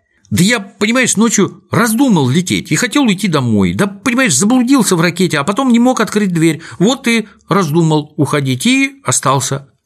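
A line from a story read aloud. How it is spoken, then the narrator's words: Flustered babbling. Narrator (Russian): лепетал в замешательстве пончик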